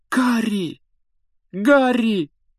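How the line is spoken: Exclamation. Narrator (Russian): воскликнула Гермиона

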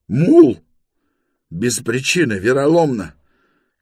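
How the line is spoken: Agitated shouting. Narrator (Russian): кричал он

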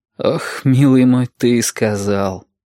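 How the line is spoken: Bitter exhale. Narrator (Russian): горько выдохнул Валентин

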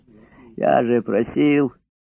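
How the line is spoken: Petulant, hoarse, nervous. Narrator (Russian): произнес капризный голос, хриплый и нервный

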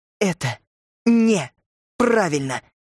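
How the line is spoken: Through gritted teeth, stressed words. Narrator (Russian): Цедила она сквозь зубы, будто делая ударение на каждом слове

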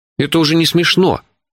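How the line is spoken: Indignant. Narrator (Russian): возмущенно начал я

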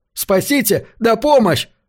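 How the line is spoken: Screaming for help. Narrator (Russian): завопил он своей команде

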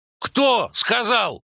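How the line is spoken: Barking. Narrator (Russian): рявкнул Войт

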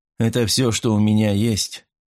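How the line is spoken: Tired reply. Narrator (Russian): устало ответил я

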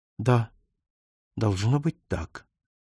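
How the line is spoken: Even, level voice. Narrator (Russian): произнесла ровным голосом

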